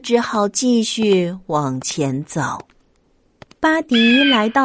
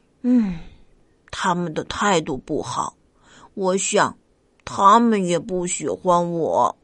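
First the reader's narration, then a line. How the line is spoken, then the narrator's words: Sighing. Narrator (Chinese): 巴迪叹了一口气说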